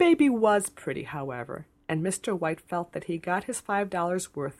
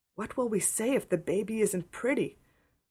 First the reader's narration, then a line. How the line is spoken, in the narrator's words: whispered Diana in trepidation